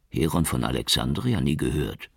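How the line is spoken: Murmured. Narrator (German): murmelte Schukri

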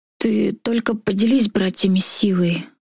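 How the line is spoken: Hoarse request. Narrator (Russian): хрипло попросил

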